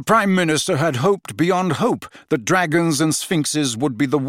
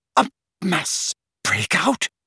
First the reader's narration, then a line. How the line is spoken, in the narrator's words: repeated the Prime Minister hoarsely